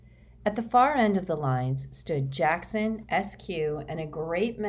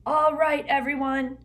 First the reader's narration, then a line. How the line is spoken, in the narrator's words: Jackson shouted